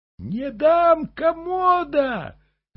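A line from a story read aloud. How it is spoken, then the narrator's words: Shrill old woman. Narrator (Russian): визгливо сказала старуха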